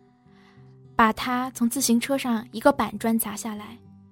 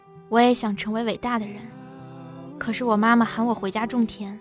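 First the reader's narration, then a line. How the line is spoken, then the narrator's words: Flat, indifferent. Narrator (Chinese): 他淡淡的说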